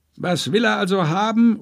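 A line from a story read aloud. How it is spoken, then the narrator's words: Merchant calling out. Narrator (German): ruft der Händler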